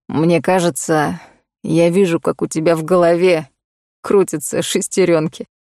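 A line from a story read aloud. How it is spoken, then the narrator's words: Chuckling. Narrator (Russian): хохотнул Коул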